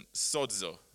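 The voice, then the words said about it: Strong put-on Greek accent. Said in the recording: “In a nice strong Greek accent.”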